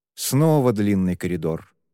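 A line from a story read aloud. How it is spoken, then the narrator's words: Sigh. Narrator (Russian): вздохнул он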